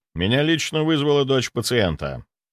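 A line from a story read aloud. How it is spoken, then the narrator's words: Calm. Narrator (Russian): спокойно ответил я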